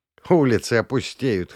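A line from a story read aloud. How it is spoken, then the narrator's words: Snorting. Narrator (Russian): хмыкнул Жигунов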